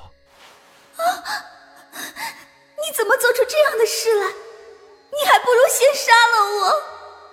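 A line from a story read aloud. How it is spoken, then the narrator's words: Terrified, crying. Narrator (Chinese): 黛玉吓得魂飞魄散，哭着说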